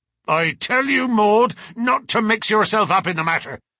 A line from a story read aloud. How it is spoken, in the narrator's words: cried her father angrily